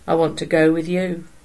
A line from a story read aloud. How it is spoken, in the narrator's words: he said in a sullen tone